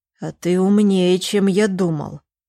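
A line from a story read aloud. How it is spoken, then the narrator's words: Angry hiss over phone. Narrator (Russian): зло прошипел Костик в трубку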